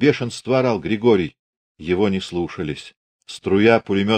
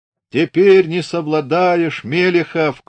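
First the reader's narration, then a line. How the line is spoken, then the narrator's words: Shouted while running past. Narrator (Russian): крикнул, пробегая мимо него и близко заглядывая в глаза взводный Бахмачев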